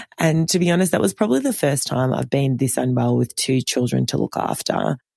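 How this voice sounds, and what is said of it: Sick, rough-sounding voice. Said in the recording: “You can probably hear it in my sexy voice that I'm still on the mend”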